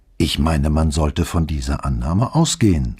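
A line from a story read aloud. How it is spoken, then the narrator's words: Calm answer. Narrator (German): antwortete er ruhig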